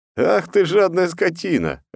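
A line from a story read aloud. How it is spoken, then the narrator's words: Laughing. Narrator (Russian): рассмеялся я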